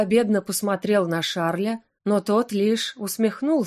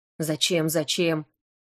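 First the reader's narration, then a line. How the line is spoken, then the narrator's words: Grumbling. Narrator (Russian): проворчал тот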